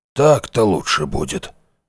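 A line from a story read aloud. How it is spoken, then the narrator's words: Grumbled. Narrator (Russian): буркнул Шептун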